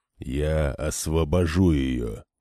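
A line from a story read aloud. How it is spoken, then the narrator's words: Barely audible growl. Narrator (Russian): прорычал Айбара, причем так тихо, что она едва-едва услышала его слова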